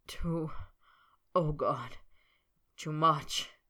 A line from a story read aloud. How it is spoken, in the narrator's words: Snape moaned